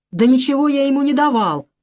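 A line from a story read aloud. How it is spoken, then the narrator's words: Shouted. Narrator (Russian): закричал Навроцкий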